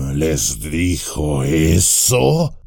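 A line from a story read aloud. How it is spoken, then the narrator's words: Grumbled. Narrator (Spanish): gruñó Bárbol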